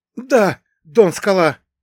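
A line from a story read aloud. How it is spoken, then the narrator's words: Two men breathing in unison. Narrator (Russian): хором выдохнули оба гангстера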